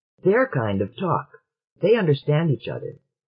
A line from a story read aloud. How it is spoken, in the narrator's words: hastily, anticipating the objection